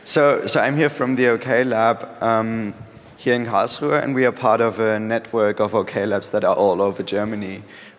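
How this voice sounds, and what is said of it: Rough, hoarse voice. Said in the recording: “Excuse my voice, it's a bit rough, but I swear it's not because of the partying, it's just because I'm a bit ill.”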